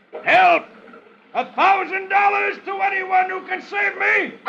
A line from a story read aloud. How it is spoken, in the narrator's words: from midstream, he yells